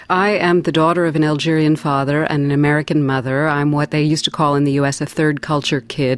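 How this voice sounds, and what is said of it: Strong American accent. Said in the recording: “you speak with a very strong American accent”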